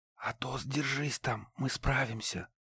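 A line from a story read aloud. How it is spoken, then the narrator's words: Whispered. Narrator (Russian): прошептал Ларс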